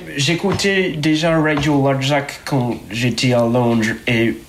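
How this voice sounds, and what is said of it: English-accented French. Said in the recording (French): “Désolé, mon accent, j'habite la France depuis peu.”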